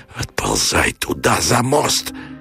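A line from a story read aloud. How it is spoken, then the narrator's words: Hoarse, dreading death. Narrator (Russian): Ожидая тупой и огненный удар смерти, он хрипел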